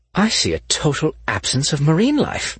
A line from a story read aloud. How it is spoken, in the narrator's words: Grant exclaimed